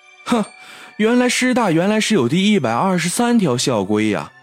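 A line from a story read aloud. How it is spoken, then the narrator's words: Joking. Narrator (Chinese): 开玩笑似的说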